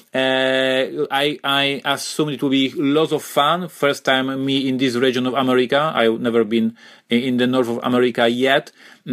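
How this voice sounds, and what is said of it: Slavic accent. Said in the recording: “my Slavic accent”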